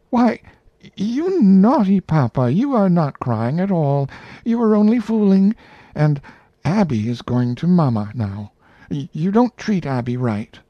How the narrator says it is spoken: cried out

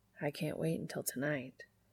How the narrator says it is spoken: he whispers

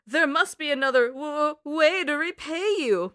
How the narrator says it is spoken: Mugman stammered

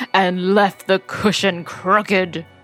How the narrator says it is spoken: growled the father bear in his great big voice

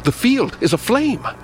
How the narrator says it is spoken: Suddenly I cried out

